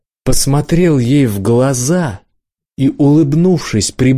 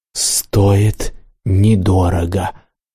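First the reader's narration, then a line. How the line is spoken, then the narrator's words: Calm whisper. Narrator (Russian): абсолютно спокойным голосом прошептал я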